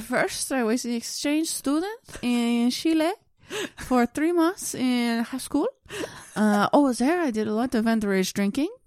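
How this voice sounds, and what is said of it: Attempted Chilean accent sounding French. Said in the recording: “I think I just went to a French accent. ... I tried to do a Chilean accent.”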